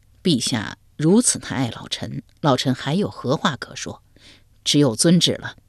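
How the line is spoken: Wry laugh. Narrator (Chinese): 王旦苦笑一声道

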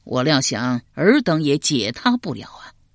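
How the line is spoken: Sighing. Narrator (Chinese): 管仲叹了口气道

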